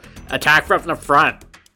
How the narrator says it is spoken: you're pretty sure you hear Goptic yell

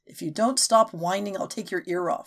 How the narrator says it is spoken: she growled

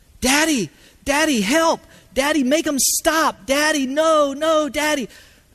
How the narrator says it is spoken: the sound of my little boy screaming out

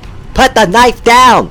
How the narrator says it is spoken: Miranda was yelling

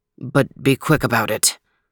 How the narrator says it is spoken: the king mumbled

